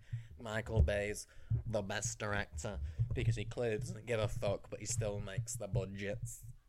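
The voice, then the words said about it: Put-on accent imitating someone. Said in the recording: “What accent?”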